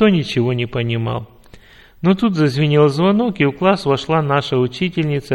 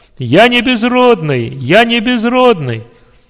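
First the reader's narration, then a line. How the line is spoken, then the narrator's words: Joyful loud shout. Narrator (Russian): радостно и громко закричал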